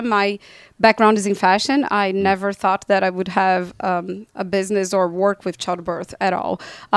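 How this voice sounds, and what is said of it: Brazilian accent. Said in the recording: “Brazil ... You have a very beautiful, sexy accent.”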